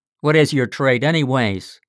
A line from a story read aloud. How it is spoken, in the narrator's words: growled the figure skeptically